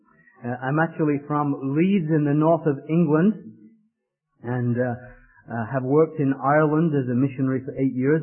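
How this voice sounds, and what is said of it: Mixed northern English and Irish accent. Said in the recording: “this is not a typical Washington, Georgia accent. ... my accent is a mongrel accent, a little bit of this and a little bit of that”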